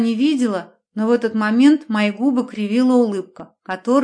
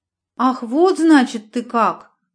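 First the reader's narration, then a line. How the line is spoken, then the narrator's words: Bewildered exclamation. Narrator (Russian): воскликнула тетя Мила растерянно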